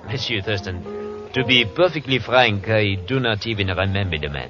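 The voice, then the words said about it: Phony put-on French accent. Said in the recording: “That French accent of yours is as phony as that Hawaiian dancer.”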